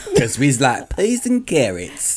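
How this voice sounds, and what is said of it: Mock southern yokel accent. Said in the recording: “Tom Hanks, but with a yokel accent ... anyone with the southern accent”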